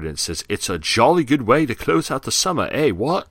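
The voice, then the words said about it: Poor put-on English accent. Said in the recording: “That's a terrible accent ... That accent was not”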